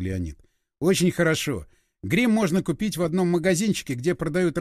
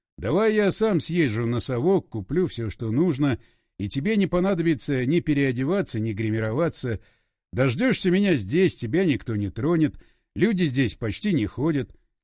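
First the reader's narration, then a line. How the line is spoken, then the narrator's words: Chuckling. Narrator (Russian): Леонид хохотнул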